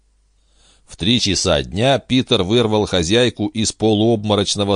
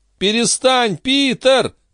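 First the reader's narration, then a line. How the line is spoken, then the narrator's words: Scream. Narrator (Russian): завопила Андерсон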